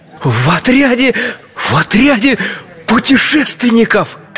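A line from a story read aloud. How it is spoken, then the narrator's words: Enthusiastic exclamation. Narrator (Russian): С энтузиазмом воскликнул чайный пакетик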